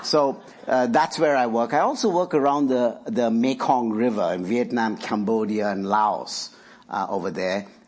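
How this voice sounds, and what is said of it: Indian English accent. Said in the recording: “I'm originally from India ... Is my English okay? Do you all understand? My accent is okay? ... This is the only one I have”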